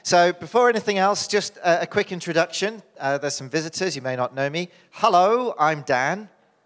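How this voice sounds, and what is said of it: British accent. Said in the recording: “I am originally from the UK, as you can tell from my accent”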